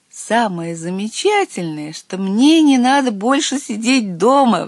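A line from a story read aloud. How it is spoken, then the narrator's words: Excited exclamation. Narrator (Russian): воскликнулся я и маленький Водяной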